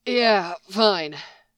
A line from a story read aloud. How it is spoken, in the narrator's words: Sam said, panting